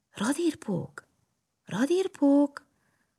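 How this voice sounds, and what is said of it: Whispered calling. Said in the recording (Hungarian): “belesuttogott a lyukba ... Pompom is belesuttogott”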